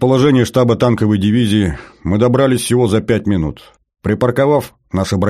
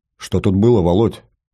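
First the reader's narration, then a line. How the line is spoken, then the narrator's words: Quiet question. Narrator (Russian): негромко спросил я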